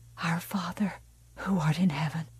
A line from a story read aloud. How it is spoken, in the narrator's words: Margaret White whispered